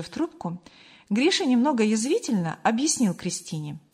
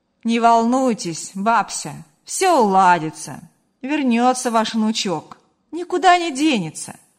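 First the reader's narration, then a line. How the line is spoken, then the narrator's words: Slightly joking tone. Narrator (Russian): Гриша немного шутливым тоном добавил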